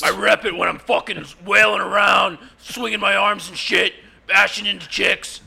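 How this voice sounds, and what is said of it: Impression of fan Dan Moshpit. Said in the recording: “your Dan Moshpit impression”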